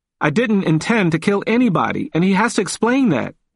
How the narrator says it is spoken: he cried

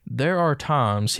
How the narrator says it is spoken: said

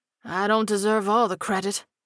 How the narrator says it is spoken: Dan chuckled hoarsely

